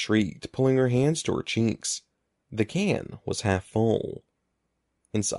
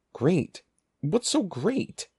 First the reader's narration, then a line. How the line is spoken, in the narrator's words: demanded shakily